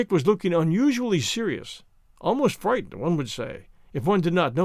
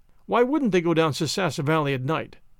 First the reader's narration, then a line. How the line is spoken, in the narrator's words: asked Tom